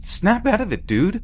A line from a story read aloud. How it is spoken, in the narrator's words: screaming